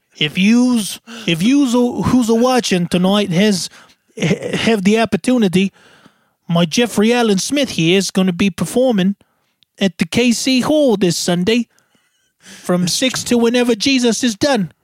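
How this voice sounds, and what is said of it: Exaggerated put-on accent. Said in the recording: “I don't even know what freaking accent we're doing.”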